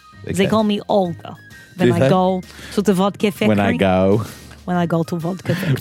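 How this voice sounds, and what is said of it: Put-on Russian accent. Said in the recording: “pseudo Eastern European / Russian accent ... I have very good Russian accent.”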